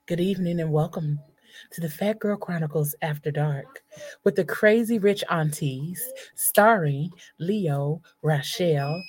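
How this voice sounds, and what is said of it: Sultry, seductive voice. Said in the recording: “put on my sexy voice”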